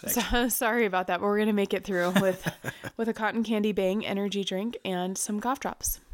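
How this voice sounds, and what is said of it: Nasal, congested voice from a cold. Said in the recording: “I'm recovering from a cold, so I'm a bit nasally. ... Super sexy voice.”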